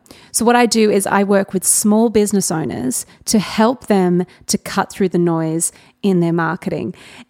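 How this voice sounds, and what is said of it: Australian accent. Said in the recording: “I live in Newcastle in Australia, in case you can't sense the Australian accent”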